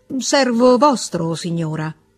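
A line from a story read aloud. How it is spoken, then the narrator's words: Curt reply. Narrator (Italian): replicò lui seccamente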